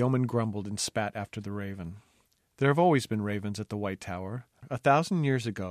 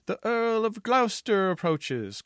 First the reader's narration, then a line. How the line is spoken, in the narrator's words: cried a sentry